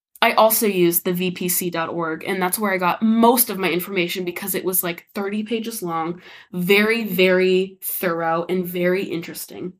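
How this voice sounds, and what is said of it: Sounds a little sick. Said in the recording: “I sound a little sick ... I might sound a little ill ... this is not my normal voice”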